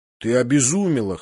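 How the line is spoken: Hoarse woman's voice. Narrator (Russian): хрипло проговорила Божья жена

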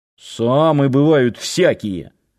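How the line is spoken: Muttering. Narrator (Russian): вновь пробурчал Нанос

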